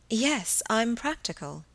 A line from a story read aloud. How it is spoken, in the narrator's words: she murmured